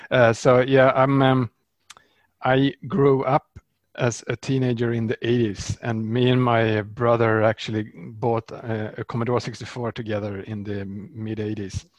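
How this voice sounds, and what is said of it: Swedish accent. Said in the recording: “I'm a Swede, of course. That's why I have this funny accent.”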